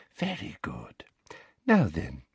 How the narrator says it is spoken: she whispered

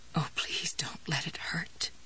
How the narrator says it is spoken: she said in a low, trembling voice

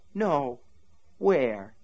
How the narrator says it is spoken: he asked her tenderly

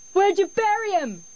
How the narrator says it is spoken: another yelled

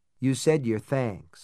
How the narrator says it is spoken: I told her in a dry voice

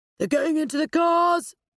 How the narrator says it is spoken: shouted Simon

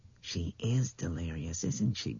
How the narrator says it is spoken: Bethany whispered

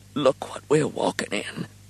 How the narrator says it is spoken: Bertie made a soft little cry and whispered out

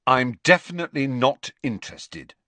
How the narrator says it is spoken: said Harry firmly

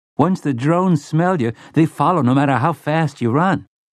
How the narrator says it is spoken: Sleitman's boy said eagerly

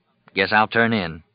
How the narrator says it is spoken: he said

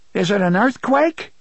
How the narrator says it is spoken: shouted

